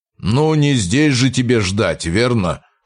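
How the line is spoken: Wry grunt. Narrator (Russian): хмыкнул механик

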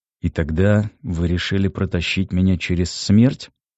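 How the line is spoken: Angry question. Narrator (Russian): зло спросил я

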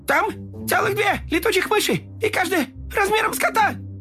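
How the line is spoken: Terrified kittens shouting. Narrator (Russian): Котята в ужасе закричали

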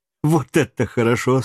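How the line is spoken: Laughing. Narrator (Russian): смеясь

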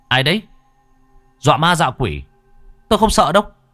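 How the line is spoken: Almost shouting. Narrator (Vietnamese): Thằng Khải nói như quát

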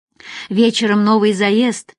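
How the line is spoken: Sighing. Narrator (Russian): вздохнул бармен

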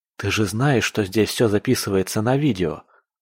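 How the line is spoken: Plain question. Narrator (Russian): спросил он

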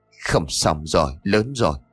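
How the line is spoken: Pale, stammering old man. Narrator (Vietnamese): sắc mặt của ông nhợt nhạt, miệng của ông lắp bắp

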